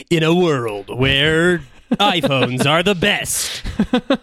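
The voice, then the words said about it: Movie trailer announcer voice. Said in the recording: “my movie announcer trailer voice”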